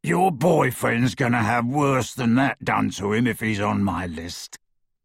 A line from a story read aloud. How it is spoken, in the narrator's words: said the horribly familiar rasping voice